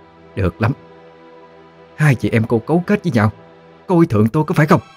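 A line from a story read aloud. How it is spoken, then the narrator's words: Angry. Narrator (Vietnamese): Bà tức giận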